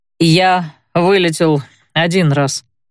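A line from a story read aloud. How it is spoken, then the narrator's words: Weary. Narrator (Russian): устало сообщил программист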